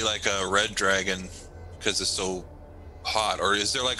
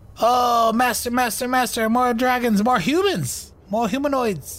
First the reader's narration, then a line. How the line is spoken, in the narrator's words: he keeps yelling things like